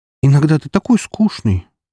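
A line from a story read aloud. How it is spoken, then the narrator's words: Sigh. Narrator (Russian): вздохнула Вика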